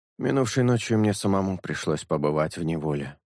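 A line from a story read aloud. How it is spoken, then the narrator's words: Quiet musing. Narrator (Russian): негромко, словно бы размышляя вслух, заметил Шелк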